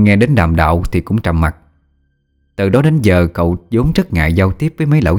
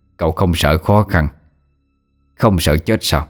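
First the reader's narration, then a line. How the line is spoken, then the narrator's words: Laughing reply. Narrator (Vietnamese): cho cười đáp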